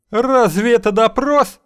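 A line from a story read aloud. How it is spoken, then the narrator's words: Shouting. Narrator (Russian): кричал он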